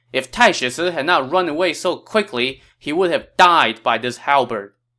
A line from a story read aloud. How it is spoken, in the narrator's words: had his soldiers shout